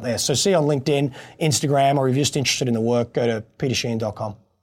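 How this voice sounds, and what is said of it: Australian accent. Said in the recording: “captivating Aussie accent”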